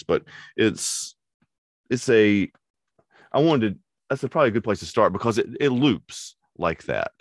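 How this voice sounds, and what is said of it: Voice sounds sick, hoarse. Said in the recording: “sorry for my voice. It's um, I've been sick for two weeks”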